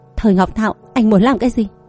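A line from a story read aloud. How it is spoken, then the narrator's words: Lowered trembling voice. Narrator (Vietnamese): Cô cố hết sức mà hạ giọng, âm thanh run rẩy nói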